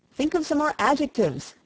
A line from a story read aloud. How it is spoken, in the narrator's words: exclaimed the young man